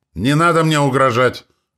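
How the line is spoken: Father shouting after pause. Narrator (Russian): выкрикнул отец после секундной паузы

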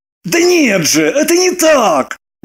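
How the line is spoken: Heated exclamation. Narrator (Russian): горячась воскликнул Роман

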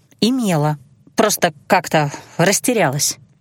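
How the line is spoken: Muttered. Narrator (Russian): пробормотала я

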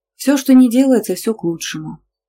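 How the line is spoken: Sighing. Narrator (Russian): вздохнула я

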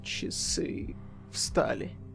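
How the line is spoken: Muttering. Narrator (Russian): пробормотал он

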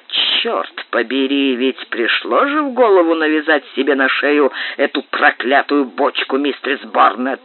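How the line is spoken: Grumbling with deep sigh. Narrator (Russian): проворчал капитан с глубоким вздохом

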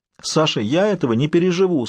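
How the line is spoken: Mother sobbing again. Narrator (Russian): снова всхлипнула мама

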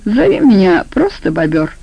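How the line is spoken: Confiding, mocking. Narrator (Russian): доверительно, но все еще насмешливо сказал бобер

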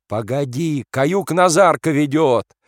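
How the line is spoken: Shouting officer. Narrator (Russian): кричал урядник

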